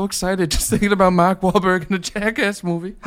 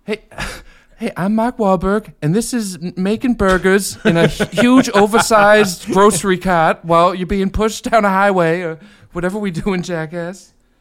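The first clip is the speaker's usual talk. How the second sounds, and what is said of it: Imitates another person's voice. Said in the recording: “how to do this voice.”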